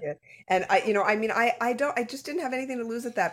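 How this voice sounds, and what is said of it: Usual voice. Nothing is said of it.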